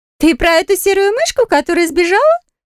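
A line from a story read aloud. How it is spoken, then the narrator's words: Girl giggling. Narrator (Russian): Хихикнула девица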